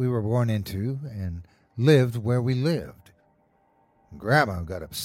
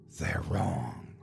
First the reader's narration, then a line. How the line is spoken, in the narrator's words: He whispered